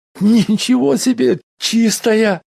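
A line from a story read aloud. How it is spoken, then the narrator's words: Howling. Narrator (Russian): взвыл помощник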